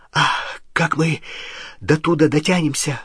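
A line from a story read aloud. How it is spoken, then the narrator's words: Breathless exhale. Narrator (Russian): выдохнул Рон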